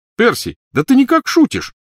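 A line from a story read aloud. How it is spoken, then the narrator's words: Exclamation. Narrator (Russian): воскликнул Фред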